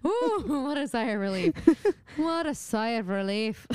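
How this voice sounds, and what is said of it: Put-on Irish accent. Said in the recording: “Why did I go into an Irish accent?”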